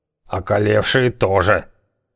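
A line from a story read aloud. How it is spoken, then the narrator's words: Gruff mutter. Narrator (Russian): буркнул Хавар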